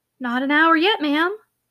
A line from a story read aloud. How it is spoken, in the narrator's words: answered the housekeeper soothingly